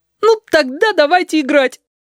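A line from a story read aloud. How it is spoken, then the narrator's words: Loud tearful demand. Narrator (Russian): потребовал Филипп громко и со слезинкой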